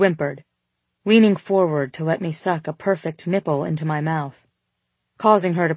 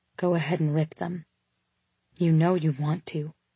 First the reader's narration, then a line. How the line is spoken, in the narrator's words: murmured into my ear